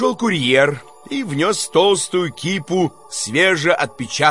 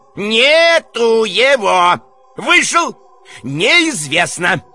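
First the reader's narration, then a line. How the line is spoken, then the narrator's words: Unpleasant shouting voice. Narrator (Russian): Варенуха кричал неприятным голосом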